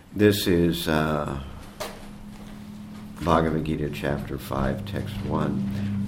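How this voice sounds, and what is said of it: Weak, fading voice. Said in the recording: “my voice is on the wane”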